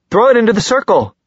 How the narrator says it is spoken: she cried to Jace

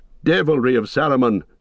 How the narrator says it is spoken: cried Aragorn

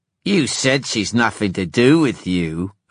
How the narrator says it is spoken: Erek sneered

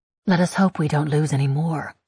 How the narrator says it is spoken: I mutter

